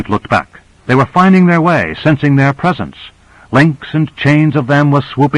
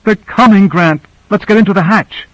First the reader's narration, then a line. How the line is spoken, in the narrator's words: She cried out